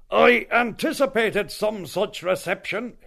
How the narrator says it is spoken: he began with an eldritch laugh

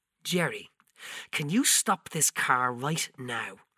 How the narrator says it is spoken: The hardness crept up in her face and she hissed

